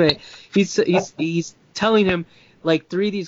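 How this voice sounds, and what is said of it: Usual voice. Nothing is said of it.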